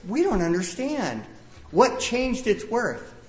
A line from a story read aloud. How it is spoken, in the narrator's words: Some of them cried